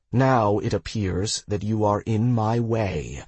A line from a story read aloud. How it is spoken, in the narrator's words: I said